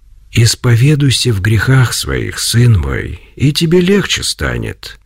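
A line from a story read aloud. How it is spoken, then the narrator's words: Quiet voice. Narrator (Russian): тихим голосом произнес Серафим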